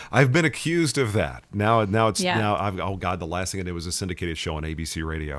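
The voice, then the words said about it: Smooth resonant radio announcer voice. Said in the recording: “You have such a radio voice.”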